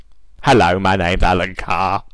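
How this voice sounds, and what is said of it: Imitates another person's voice. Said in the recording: “it just comes out sounding like Alan Carr again ... Hence his accent.”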